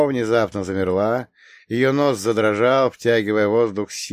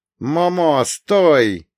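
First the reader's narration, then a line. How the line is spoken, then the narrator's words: Instinctive shout. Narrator (Russian): крикнул я инстинктивно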